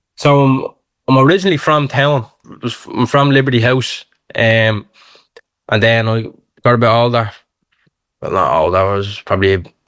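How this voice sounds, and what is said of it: Dublin Irish accent. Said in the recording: “this is Dublin City FM. They're hearing your accent as well. So it was obviously a very local debut”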